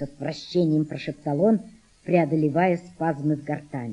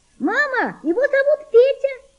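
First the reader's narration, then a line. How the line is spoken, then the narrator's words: Girl shouting. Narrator (Russian): закричала девочка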